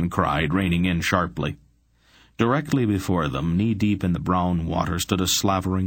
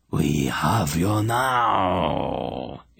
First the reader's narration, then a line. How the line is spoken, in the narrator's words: it growled, seeming almost to chew the words as it twisted its muzzle into speech